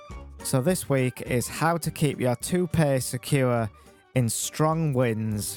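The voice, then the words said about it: Deliberately boring, dull voice. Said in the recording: “I'm attempting to do a boring voice”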